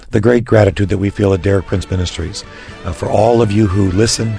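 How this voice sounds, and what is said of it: Raspy voice. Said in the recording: “excuse my raspy voice”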